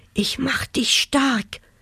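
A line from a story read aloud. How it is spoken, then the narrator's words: Whispering. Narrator (German): flüsterte er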